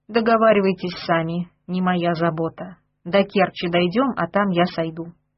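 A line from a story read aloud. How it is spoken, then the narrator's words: Calm speech. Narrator (Russian): сказал Петру уже спокойно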